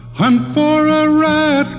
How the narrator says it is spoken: cried Billy Barlow

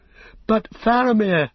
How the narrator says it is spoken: cried Pippin

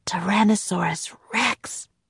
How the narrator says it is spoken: whispered Jack

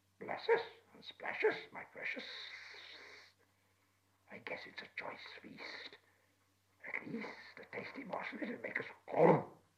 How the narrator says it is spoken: Gollum and whispered and hissed

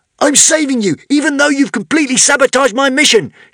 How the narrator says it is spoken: shouted Zar

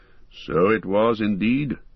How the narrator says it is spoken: answered Elrond gravely

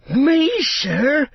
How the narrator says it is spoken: cried Sam

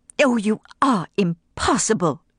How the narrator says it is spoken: she cried in wrath

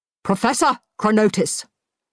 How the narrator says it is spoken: barked Skagra

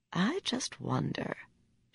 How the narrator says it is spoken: she said quietly

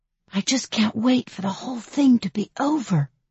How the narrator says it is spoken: whisper

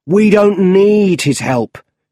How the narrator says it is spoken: shouted his boss

